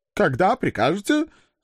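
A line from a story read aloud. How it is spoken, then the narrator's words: Weak squeak, big man. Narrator (Russian): слабо пискнул здоровяк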